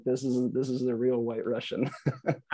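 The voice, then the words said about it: Put-on Russian accent. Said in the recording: “Russian accent.”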